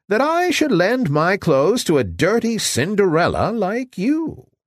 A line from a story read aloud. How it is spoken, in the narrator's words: cried Javotte, tossing her head disdainfully